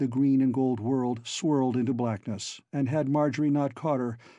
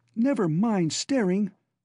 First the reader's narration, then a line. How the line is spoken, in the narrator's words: she cried at him sharply